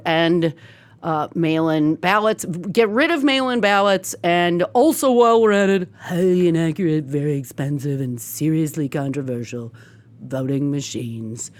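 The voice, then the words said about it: Imitates another person's voice. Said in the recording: “pardon my cheeky impersonation”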